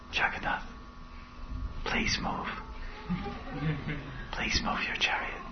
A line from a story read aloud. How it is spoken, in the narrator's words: he whispered in his ear